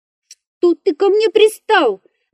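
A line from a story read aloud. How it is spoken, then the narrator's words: Tearful shriek. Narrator (Russian): завизжал лесник, и крупные слезы брызнули из его глаз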